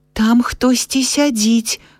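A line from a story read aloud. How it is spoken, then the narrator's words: Little girl whispering. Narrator (Belarusian): прашаптала малая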